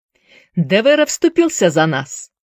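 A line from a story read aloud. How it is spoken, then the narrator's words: Snort. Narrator (Russian): Мэйджи хмыкнул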